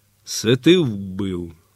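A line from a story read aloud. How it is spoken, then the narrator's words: Cossack asking quietly. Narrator (Ukrainian): тихо спитав Запорожець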